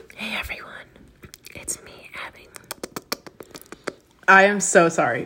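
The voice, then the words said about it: ASMR-style voice, squirrel-like. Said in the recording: “An ASMR podcast ... You sound like a fucking squirrel.”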